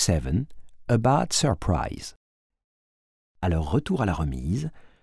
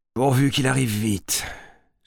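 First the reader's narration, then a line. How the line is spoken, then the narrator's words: Sighed, chief. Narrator (French): soupire le chef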